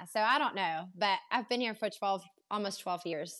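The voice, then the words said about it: German accent blended with Southern American. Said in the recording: “I can't quite picture if it's going to be Carolina accent or the German accent ... it's been blending together. A lot of people actually say it sounds like I'm from Louisiana, especially when I throw the y'all in”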